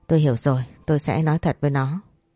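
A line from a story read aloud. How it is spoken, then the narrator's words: Sighing. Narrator (Vietnamese): Ông tổng thở dài rồi nói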